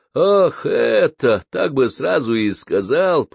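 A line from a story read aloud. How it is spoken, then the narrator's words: Grumbling. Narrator (Russian): проворчал Иисус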